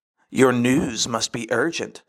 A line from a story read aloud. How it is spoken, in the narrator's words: spat Satan to God, still unable to bear the light